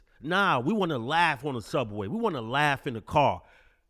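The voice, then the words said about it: Thick Brooklyn accent. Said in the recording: “You will hear a thick Brooklyn accent that is no longer prevalent.”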